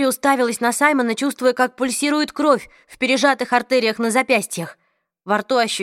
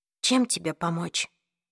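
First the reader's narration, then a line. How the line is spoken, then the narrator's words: Whispered question. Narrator (Russian): шепотом спросила она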